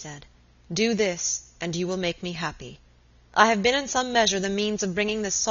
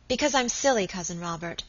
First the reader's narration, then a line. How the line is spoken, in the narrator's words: Alicia said quickly